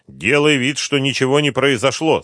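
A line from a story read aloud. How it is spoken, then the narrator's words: Stern reminder. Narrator (Russian): строго напомнил Шумский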